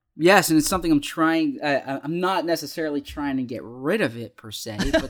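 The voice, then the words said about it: Slight Philadelphia accent. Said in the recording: “you have a bit of a Philadelphia accent”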